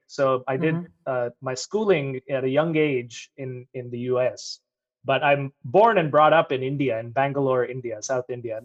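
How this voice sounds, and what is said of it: American accent. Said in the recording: “I have an American accent ... you do ... my American accent comes from the fact that I lived in Michigan from my first grade to fourth grade”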